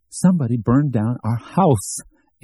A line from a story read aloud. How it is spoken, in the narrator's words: Amy cried cheerily